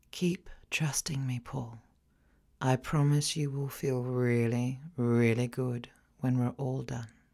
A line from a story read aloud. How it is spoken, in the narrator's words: whisper